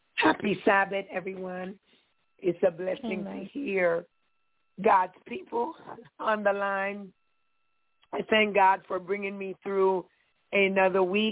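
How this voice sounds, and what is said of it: Slightly raspy voice. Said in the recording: “my voice sounds a little raspy,”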